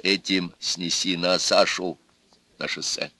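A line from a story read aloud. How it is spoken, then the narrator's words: Quiet old woman. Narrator (Russian): Бабка тихо досказала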